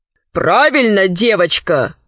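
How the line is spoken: Plain. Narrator (Russian): сказал Пучини-2

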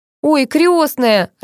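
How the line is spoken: Burst of laughter. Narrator (Russian): расхохоталась Надя

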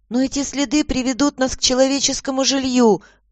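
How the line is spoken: Timid objection. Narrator (Russian): робко возразила Мэгги

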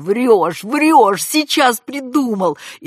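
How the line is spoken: Laughing, shouting. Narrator (Russian): Надежда хохотала, кричала

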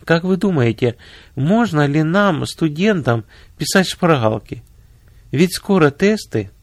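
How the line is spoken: Timid question, two girls. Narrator (Russian): две студентки робко спросили

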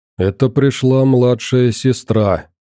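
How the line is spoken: Gloomy, terse. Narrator (Russian): мрачно проронил я

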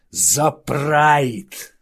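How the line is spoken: Growling. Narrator (Russian): зарычал Хауда

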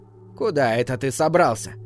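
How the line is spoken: Stern, slightly creaky voice. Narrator (Russian): спросила она строгим, чуть скрипучим голосом

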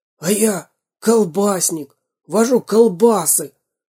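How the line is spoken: Hoarse whisper. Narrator (Russian): хриплым шепотом сказал четвертый

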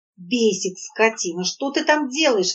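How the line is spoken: Tragic exclamation. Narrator (Russian): воскликнула Надежда голосом, полным трагизма

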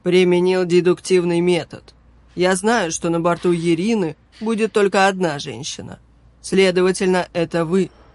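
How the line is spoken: Impassive deep bass. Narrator (Russian): Бесстрастным голосом пробасил капитан

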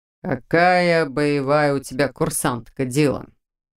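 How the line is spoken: Amused snort. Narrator (Russian): Снова хмыкнул невысокий широкоплечий легионер

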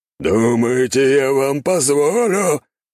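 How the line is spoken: Demonic roar. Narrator (Russian): взревел демон

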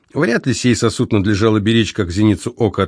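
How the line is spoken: Plain. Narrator (Russian): ответил Савва

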